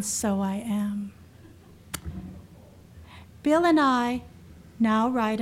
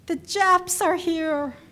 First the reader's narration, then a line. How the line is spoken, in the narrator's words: yelling